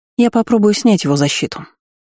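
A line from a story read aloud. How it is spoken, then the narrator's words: Calm. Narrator (Russian): спокойно сообщила Астра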